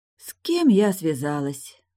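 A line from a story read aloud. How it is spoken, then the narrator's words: Sighing. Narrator (Russian): вздохнула Тильда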